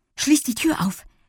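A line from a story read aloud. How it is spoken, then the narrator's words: Breathless reply. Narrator (German): gab Lilli atemlos zurück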